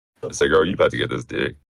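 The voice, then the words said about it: Very deep, low-pitched voice. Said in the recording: “In your lowest toned voice ... do it in your lowest voice possible”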